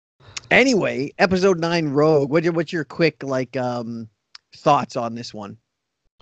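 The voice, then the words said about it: Voice sounds off from usual. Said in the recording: “not necessarily under the weather, but you can tell that my voice is not where it usually is”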